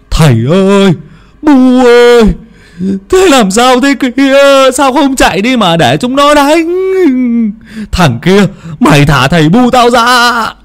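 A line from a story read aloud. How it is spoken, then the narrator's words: Wailing ceaselessly. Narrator (Vietnamese): Ông Long miệng không ngừng kêu gào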